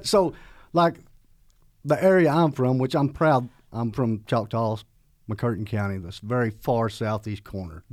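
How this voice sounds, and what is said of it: Southern US accent. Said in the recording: “we're right on the line of the southern dialect. I'm sure you picked up on that early. ... it just comes it. nature, it's natural”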